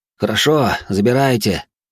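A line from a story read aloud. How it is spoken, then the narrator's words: Soldier's heavy sigh. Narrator (Russian): тяжело вздохнув, ответил солдат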